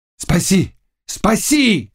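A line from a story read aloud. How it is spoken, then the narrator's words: Shouting. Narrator (Russian): кричал Богун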